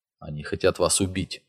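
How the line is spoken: Very quiet old man. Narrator (Russian): очень тихо проговорил старик

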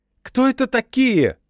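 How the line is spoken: Screamed. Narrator (Russian): завопила она

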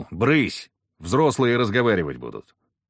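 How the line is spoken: Barked command. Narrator (Russian): я рявкнул

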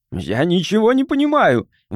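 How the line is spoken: Shout. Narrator (Russian): выкрикнул он

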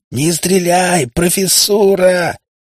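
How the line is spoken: Yelling over gunfire. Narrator (Russian): заорал он во всю глотку, стараясь перекричать хлопки пистолетных выстрелов

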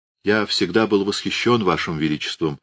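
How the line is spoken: Plain. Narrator (Russian): сказал он

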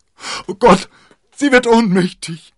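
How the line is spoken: Shouted in alarm. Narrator (German): schrie D'Artagnan

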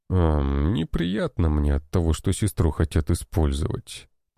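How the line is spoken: Sighing. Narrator (Russian): вздохнул он

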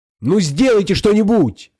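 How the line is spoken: Shouted. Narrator (Russian): крикнула Алиса

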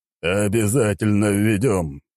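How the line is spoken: Deep bass voice. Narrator (Russian): пробасил император

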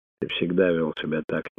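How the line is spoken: Quiet. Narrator (Russian): тихо сказал Тунгата

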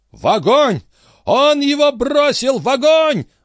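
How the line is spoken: Frantic yell. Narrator (Russian): завопил дядюшка Антифер

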